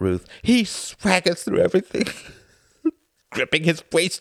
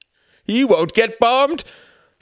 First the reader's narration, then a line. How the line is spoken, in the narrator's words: she said, her voice rising